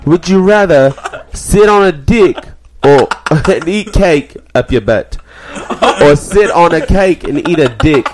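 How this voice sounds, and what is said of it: Put-on English accent. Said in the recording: “You gotta say it in English accent. English accent.”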